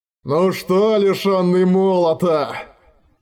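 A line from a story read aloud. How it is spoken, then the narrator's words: Roaring. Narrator (Russian): проревел он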